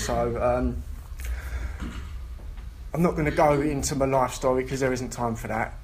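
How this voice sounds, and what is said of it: London accent. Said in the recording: “I'm from London originally, some of you might have guessed by the accent”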